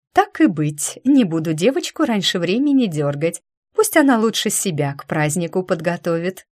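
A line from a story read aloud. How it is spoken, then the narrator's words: Dragon mother giggling. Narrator (Russian): хихикнула драконья мама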